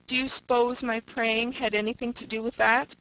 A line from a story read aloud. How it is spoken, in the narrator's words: She cried imploringly to Una